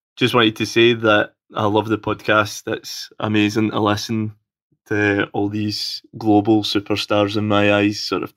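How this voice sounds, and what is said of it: Scottish accent. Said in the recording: “coming to you all the way from sunny Scotland... my dulcet accent”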